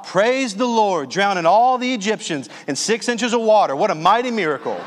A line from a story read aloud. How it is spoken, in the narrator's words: the same voice as before shouts out